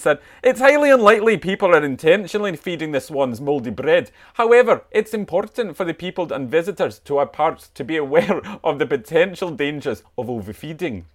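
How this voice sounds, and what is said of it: Convincing imitated regional accent. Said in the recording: “Incredible accent. ... Oh, I felt like she came in the room.”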